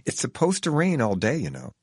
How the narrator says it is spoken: He's pleasant and sadly warns me

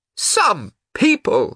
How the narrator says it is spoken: she said loudly

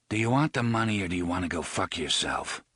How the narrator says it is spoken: Roland asked in a cold, dead voice

